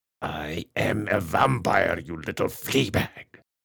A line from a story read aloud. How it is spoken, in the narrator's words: hissed